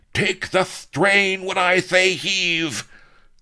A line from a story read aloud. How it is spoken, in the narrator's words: he roared